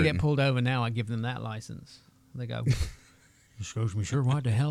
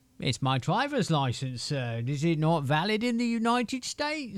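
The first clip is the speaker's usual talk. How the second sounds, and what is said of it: Put-on British accent. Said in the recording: “you get real limey, don't you? ... You hit him with the limey accent”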